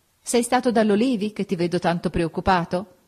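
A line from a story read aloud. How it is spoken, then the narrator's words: Laughing question. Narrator (Italian): Augusta, ridendo, mi domandò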